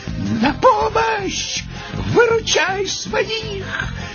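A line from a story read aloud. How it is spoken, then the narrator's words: Shouting. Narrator (Russian): крикнул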